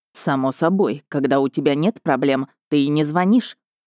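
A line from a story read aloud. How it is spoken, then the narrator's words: Distant grumbling father. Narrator (Russian): проворчал где-то на другом краю Европы Ханс Эдландер, мой лучший в мире отец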